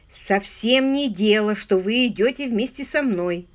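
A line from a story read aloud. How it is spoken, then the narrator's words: Grumbling. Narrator (Russian): проворчал инспектор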